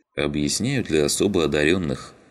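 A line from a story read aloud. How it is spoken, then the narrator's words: Sighing. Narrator (Russian): вздохнул Щербатый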